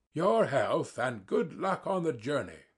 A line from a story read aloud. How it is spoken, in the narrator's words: he cried to Sverkov